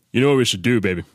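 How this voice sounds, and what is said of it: Impression of Daddy Kev. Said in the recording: “your Daddy Kev impersonation? Because you have the best Daddy Kev”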